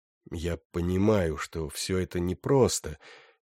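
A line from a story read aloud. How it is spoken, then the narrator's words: Said softly. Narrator (Russian): мягко сказал он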